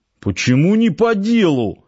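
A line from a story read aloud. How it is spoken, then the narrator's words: Offended. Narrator (Russian): обиженно заморгал квадратный человек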